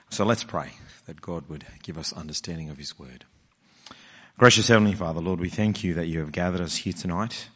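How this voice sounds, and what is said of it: Throaty, hoarse whispering voice. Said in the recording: “I'm whispering throatily into the microphone”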